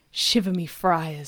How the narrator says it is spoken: sighed Detective Harlan Sanders

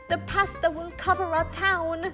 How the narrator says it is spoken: they cried

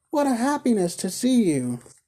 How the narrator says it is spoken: cried Dot

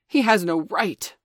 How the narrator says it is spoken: Father Wolf began angrily

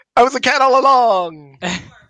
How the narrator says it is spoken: someone just screamed

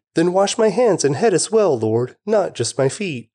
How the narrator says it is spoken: Simon Peter exclaimed

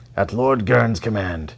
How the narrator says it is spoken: the white wolf shouted

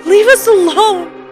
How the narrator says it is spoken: Mary was yelling

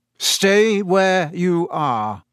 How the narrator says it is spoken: he said in the same hoarse voice

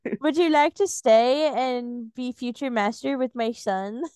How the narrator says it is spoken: He chuckled

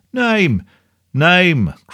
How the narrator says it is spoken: cried the audience

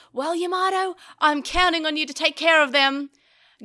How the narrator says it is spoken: Taichi looked behind him and yelled

